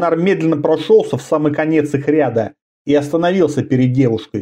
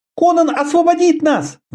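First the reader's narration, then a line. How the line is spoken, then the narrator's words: Sudden shout, young woman. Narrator (Russian): внезапно крикнула одна из девушек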